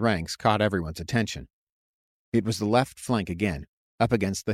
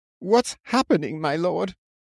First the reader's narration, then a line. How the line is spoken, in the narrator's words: Adaminster asked with a quavering voice when the third flank attack broke upon them